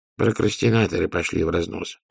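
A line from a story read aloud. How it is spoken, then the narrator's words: Muttering. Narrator (Russian): пробормотал Людзе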